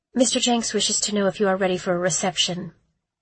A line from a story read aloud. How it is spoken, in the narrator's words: she said, her voice a tad monotone